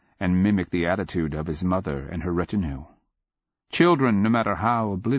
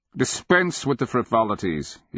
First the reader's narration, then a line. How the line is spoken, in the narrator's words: he snapped